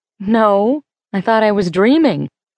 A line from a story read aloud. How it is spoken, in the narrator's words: laugh